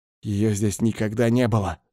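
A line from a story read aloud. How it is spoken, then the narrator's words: Hiss. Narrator (Russian): зашипел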